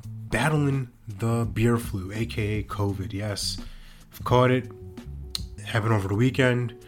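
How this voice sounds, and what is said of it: Scratchy, raspy sick voice. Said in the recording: “hear it in my voice right now, I'm a bit under the weather. Scratchy voice, raspy”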